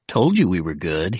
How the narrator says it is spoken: he said

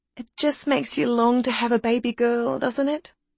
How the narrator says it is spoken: cooed the sales lady

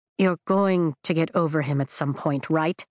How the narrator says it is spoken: Traeger mutters

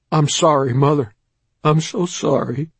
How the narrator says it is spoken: Ron began sobbing and saying

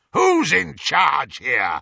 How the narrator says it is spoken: roared Greyback, covering his moment of inadequacy

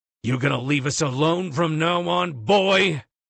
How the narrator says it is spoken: my father growls

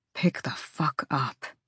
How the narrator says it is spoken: he murmured

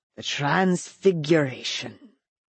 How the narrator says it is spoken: he murmured

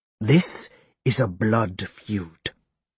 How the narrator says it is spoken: he hisses in high lingo

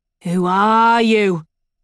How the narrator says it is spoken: demands

